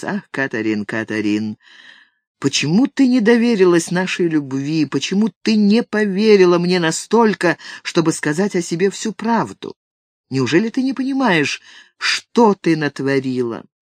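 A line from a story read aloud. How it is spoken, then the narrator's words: Sad, after long pause. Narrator (Russian): Ким надолго замолчал, потом, грустно покачав головой, произнес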